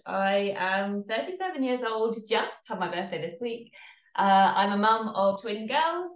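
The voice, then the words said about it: English accent. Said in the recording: “from the accent, I am based in England, so I'm English”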